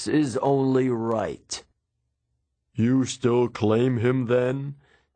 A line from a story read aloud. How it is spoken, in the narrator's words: Zeus asked menacingly